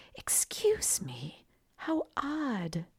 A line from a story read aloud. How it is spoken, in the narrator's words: whispered